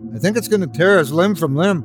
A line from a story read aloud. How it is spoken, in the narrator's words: Paul shouted